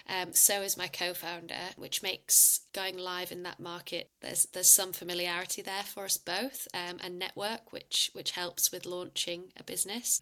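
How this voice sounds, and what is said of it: British accent. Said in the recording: “I'm not sure if you can tell by my accent, but I'm originally from the UK”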